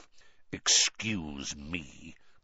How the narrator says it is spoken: growled Moody

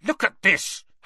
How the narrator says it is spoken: Harry snarled

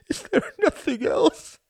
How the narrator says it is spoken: she sobbed

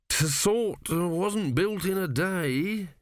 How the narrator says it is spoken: he mumbled

